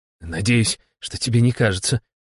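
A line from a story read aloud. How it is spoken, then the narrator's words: Muttered under breath. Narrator (Russian): буркнул себе под нос председателя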